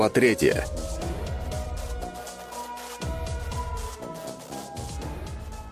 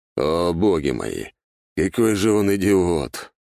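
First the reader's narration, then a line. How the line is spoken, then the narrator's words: Groaning. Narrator (Russian): простонал Дориан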